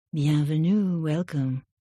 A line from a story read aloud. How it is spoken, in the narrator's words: she purred